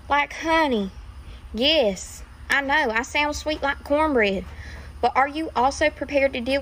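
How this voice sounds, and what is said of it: Cute country accent. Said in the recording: “a country gal with a very cute Minnie Mouse country accent”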